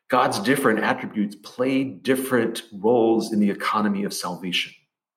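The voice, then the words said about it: Southern Memphis accent. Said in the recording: “I am from Memphis, by the way. That's not an affectation. I realize my accent is all off”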